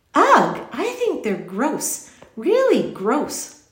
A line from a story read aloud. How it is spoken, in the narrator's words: Lindy exclaimed